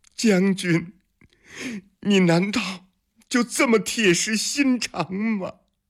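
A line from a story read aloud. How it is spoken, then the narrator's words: Crying. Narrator (Chinese): 他的身后传来了海棠的哭声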